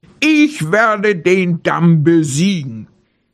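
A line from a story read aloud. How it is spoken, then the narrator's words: Bear roaring. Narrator (German): brüllte der Bär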